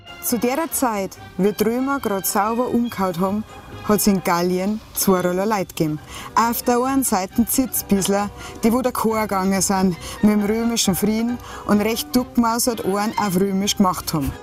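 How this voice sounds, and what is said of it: Thick Franconian-Upper Palatinate Bavarian dialect. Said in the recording (German): “es Fränkisch, Oberpfälzisch. Bloß nicht in Niederbayerisch ... auch wenn man aus Bayern kommt wie ich, muss man ganz genau hinhören. Ich liebe ja Dialekt.”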